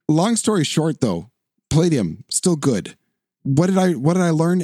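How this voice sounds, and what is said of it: Hoarse voice. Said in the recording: “I'm getting hoarse.”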